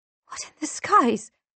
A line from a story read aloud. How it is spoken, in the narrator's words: I whisper